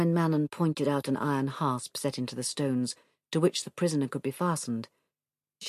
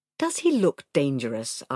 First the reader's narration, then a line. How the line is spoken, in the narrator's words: Arha scoffed